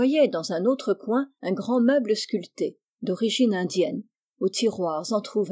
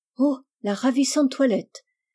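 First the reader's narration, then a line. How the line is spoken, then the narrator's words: Exclaimed. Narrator (French): s'écria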